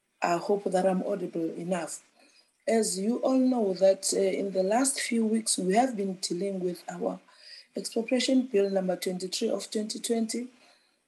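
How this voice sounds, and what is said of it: Strained, unwell-sounding voice. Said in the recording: “my voice is not so good. I am coming from a bout of flu, so that is why my voice is like this.”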